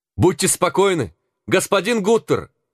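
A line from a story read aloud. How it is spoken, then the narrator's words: Shouted. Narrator (Russian): крикнул он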